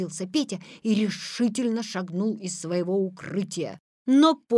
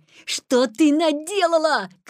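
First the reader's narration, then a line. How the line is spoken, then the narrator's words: Shout. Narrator (Russian): крикнул Петя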